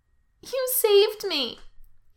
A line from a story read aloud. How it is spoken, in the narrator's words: he says, and then bursts into big, snotty sobs